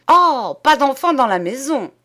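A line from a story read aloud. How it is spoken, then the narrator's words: Shouted. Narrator (French): cria-t-elle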